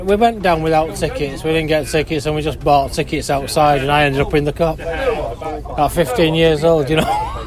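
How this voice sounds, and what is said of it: Manchester accent. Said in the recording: “your Manchester accent”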